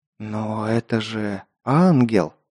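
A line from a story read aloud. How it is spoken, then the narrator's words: Spellbound whisper. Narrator (Russian): Завороженно прошептал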